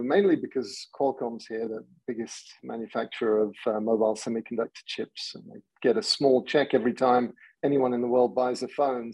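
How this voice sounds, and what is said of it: English accent. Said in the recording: “as you can tell from my accent, I don't come from around here. I grew up in England”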